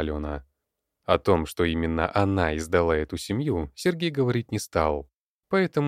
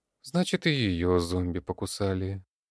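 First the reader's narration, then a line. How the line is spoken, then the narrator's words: Sad voice. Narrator (Russian): печальным голосом произнесла Оксана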